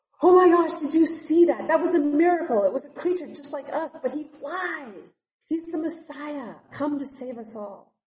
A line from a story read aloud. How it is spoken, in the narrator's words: yelled out